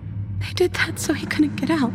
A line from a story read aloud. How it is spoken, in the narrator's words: The voice in her head whispered